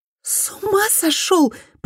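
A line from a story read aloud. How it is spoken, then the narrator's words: Hissing. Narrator (Russian): прошипела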